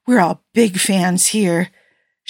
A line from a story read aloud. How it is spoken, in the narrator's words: she tacked on breathlessly